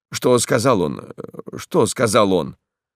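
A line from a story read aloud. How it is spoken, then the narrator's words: Hurried, clipped. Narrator (Russian): Поспешно, отрывистым тоном проговорил священник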